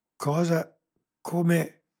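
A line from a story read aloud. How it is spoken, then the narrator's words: Stammering. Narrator (Italian): balbettò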